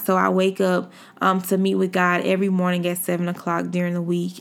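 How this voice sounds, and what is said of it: Slightly sleepy voice. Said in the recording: “As you can see or hear in my voice, I'm still a little sleepy.”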